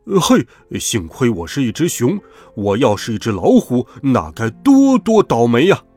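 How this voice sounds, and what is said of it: Louder, shouting voice. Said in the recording (Chinese): “用更大的声音说”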